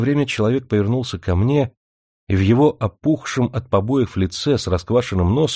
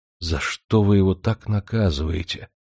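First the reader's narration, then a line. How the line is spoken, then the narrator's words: Quiet question. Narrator (Russian): спросил я тихо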